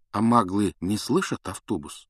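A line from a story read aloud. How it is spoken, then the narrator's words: Plain. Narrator (Russian): спросил Гарри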